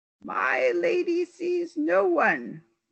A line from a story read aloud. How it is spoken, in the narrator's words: moaned the voice